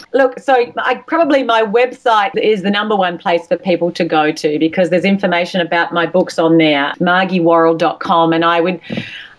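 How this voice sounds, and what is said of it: Australian accent. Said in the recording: “my accent, my Australian accent, my A's sound like I's and my R's sound like E's ... just don't let my accent mix you up”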